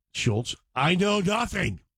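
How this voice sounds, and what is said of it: Poor imitation German accent. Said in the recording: “That's not a very good German accent... that sounds like an old white boy accent.”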